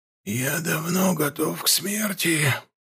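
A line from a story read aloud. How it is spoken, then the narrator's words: Whispering temple elder. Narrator (Russian): прошептал глава храма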